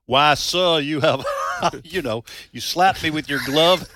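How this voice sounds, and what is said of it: Put-on old Southern colonel accent. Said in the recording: “Leghorn Foghorn makes an appearance ... My apologies to all Southerners for my lousy accent ... Old Southern colonel or something.”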